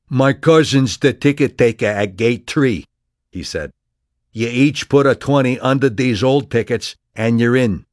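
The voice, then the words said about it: Thick lyrical street accent. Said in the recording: “lyrically thick accent”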